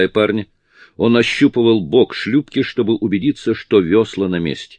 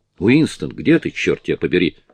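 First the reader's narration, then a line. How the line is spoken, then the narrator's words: Soft call. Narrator (Russian): мягко позвал шкипер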